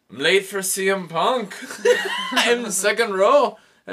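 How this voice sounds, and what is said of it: Poor put-on Scottish accent. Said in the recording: “I had a horrible, horrible Scottish accent.”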